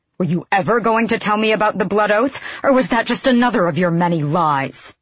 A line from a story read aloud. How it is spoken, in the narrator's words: Aelin snarled with an animalistic intensity that reminded him she, too, had Fey blood in her veins